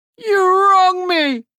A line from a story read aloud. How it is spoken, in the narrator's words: Hook cried